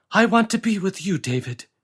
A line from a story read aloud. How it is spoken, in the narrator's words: she cried